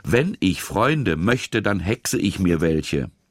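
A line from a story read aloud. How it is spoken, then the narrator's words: Hissing. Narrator (German): Lilly zischte ihn mit funkelnden Augen an und sagte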